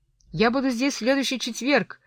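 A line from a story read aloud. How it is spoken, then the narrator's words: Shouted. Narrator (Russian): крикнула Кэти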